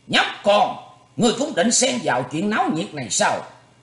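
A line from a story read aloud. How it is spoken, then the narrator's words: Angry shout. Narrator (Vietnamese): Sài Lỗi trừng mắt quát lên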